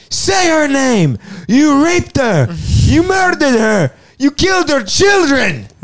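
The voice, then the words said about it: Shouted impression with crisp enunciation. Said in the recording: “That was an imitation of Oberyn Martell. ... Very impressed with the enunciation on that. ... Yeah, it was pretty good.”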